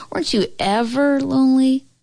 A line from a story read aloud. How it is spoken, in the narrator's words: Grandma laughed again